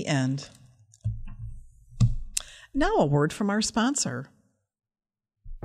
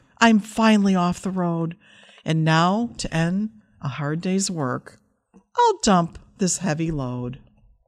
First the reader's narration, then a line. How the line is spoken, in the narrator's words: exclaimed the tired truck